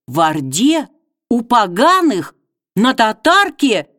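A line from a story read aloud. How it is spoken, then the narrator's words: Princess exclaiming. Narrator (Russian): воскликнула княгиня Васа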